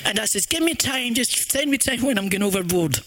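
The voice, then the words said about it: Scottish accent. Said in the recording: “talks Scottish as well”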